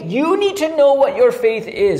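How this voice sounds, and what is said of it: Yelling. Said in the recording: “Why am I yelling?”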